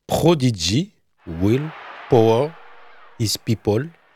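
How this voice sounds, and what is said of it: English spoken with a strong foreign accent. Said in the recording (French): “C'est ça avec mon anglais. ... tu nous as fait un accent de dingo. ... Mon accent Yasser Arafat.”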